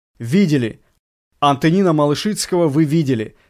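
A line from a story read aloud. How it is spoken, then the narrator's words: Laughing. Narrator (Russian): сказал, рассмеявшись, Виктор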